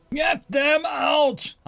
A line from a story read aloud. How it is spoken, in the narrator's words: I bellowed